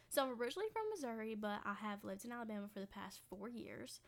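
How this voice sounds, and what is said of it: Southern accent mixed with Northern. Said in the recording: “I kind of sound southern, but I have moments where I sound northern.”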